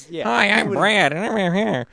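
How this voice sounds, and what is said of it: Imitates another person's voice. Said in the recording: “that was a really good impression of Ryan doing an impression of you.”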